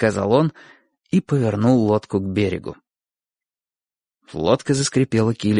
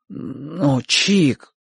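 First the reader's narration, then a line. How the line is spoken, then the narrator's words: Muttered. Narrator (Russian): пробормотал Бочо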